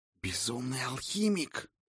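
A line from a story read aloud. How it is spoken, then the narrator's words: Hissing. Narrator (Russian): прошипел Ульвейн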